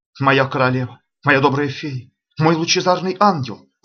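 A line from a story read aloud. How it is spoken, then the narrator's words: Exclamation. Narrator (Russian): воскликнул Виконт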